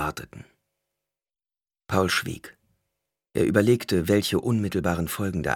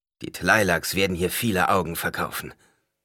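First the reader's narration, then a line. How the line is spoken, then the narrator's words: Someone growling. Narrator (German): knurrte jemand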